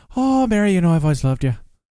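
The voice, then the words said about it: Put-on Irish accent. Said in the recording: “I always have this phrase that I say to do my Irish accent.”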